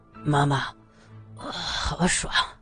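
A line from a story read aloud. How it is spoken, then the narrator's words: Sleepy murmur. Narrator (Chinese): 俊杰翻了身，口中喃喃说着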